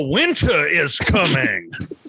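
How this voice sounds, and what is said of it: Jon Snow impression. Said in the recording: “That was a really good Jon Snow impression.”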